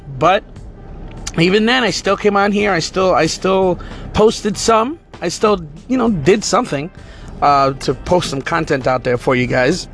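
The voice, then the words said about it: Hoarse, strained, worn-out voice. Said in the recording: “My voice is still kind of shot ... I just didn't have enough of a voice. As you can tell, I'm still struggling right now.”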